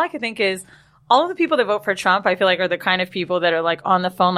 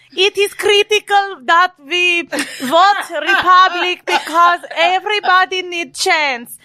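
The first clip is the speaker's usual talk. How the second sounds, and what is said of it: Imitation of Melania Trump's strong accent. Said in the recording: “Melania! Like her accent, where and it was so strong.”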